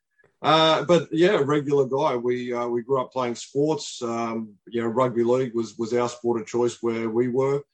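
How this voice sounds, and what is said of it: Australian accent. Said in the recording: “a regular guy from Western Sydney ... New South Wales in Australia. As you can probably tell from my accent, I'm not from around your parts.”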